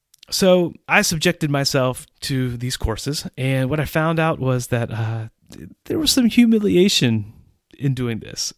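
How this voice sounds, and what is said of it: English accent. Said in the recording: “my accent, my English accent”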